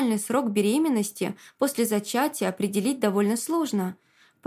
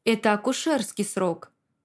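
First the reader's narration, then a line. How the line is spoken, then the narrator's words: Doctor's gentle explanation. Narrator (Russian): мягко поясняет врач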